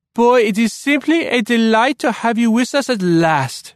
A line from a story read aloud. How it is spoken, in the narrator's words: she said in an even thicker French accent